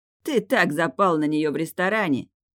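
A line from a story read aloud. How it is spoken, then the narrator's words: Smirking snort. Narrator (Russian): хмыкнул Бека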